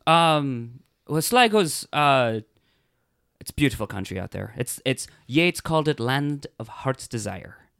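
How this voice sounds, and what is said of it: Irish accent. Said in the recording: “if you can't tell by the accent, where are you from again? ... I'm from Sligo. It's in the northwest of Ireland.”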